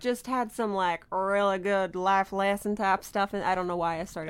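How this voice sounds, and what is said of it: Put-on weird regional accent. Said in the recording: “The accent, you probably just offended a third of our listening audience ... You immediately whipped out a weird accent.”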